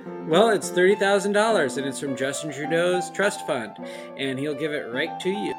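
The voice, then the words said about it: Announcer-style radio voice. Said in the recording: “Radio Voice ... I'm not just any radio voice.”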